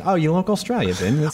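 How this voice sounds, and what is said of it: Put-on bad Australian accent. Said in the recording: “I just casually go into the accent ... I love bad Australian accents ... You're getting good at it”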